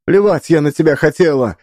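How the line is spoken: Shouting. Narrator (Russian): выкрикнула Лиса

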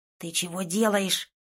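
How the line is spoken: Hissing. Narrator (Russian): прошипел Тин

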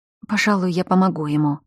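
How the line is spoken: Muttering. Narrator (Russian): пробормотала я

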